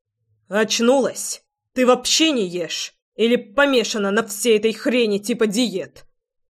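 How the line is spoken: Growling, spitting out words. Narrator (Russian): Рычал Львовский, буквально выплевывая каждое слово

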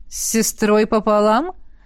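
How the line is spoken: Snorting. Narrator (Russian): хмыкнул он

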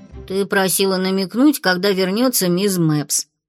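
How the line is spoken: Deep voice in ear. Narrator (Russian): пробасила на ухо Пикси Фло

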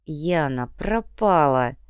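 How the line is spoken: Through gritted teeth. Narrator (Russian): сквозь зубы процедила Инга

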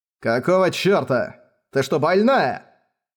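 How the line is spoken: Irritated barking parrot. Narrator (Russian): рявкнул попугай, раздраженно

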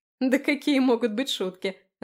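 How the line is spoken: Laughing. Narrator (Russian): рассмеялась она

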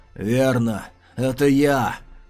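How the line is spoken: Hoarse menacing growl. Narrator (Russian): Хрипло рыкнул темнокрылый, и в голосе его слышалось обещание смерти

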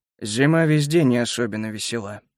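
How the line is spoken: Grumbled mutter. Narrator (Russian): буркнул в ответ немец

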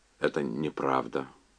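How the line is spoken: Mumbling. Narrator (Russian): забормотал Энди

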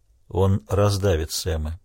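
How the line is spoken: Quiet. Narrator (Russian): тихо произнес Крейг

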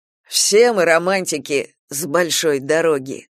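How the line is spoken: Smirking snort. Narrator (Russian): хмыкнул Ангел

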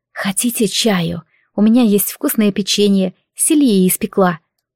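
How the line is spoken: Whispered. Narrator (Russian): шепнула

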